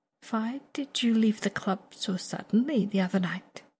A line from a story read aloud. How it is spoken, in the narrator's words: Viago suddenly asks, though he does so softly, gently even